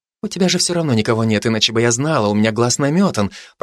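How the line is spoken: Whispering. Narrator (Russian): продолжала шептать Бородинская

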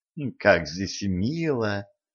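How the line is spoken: Purr. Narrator (Russian): промурлыкала Катран

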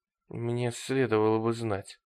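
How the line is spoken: Puzzled mutter. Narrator (Russian): недоуменно пробормотал он

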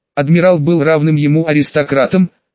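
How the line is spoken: Plain. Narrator (Russian): ответил Гневомир

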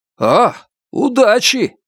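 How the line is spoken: Called out after someone. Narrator (Russian): крикнул Ниран ему вслед

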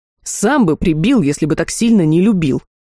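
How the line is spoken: Snapping retort. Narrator (Russian): огрызнулся верный друг

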